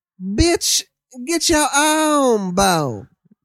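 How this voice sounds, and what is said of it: Stoned dog character voice. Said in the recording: “so I did an impression of her dog. ... Stoned dog. ... when this voice comes through him”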